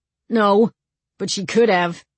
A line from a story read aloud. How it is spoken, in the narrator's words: said sulkily